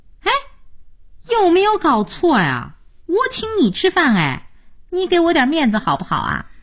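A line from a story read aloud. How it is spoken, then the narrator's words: Good-natured silly laugh. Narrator (Chinese): 佳音并不嫌寒碜，傻笑着说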